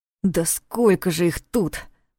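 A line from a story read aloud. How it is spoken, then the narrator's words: Through gritted teeth. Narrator (Russian): процедил Ваня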